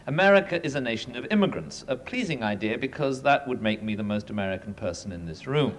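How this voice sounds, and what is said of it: British accent. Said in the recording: “the possessor of a British accent”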